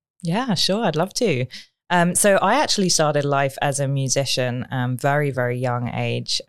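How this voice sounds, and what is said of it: British accent. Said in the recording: “She has a wonderful British accent.”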